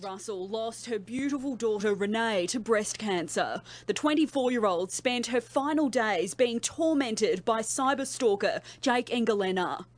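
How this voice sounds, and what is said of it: Harsh-sounding Australian accent. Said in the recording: “very harsh-sounding Australian reporter”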